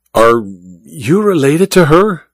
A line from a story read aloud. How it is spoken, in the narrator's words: Olga sighed dramatically